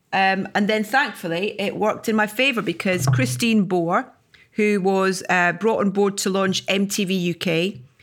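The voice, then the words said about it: Scottish accent. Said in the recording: “a Scottish accent ... I'm not changing my accent”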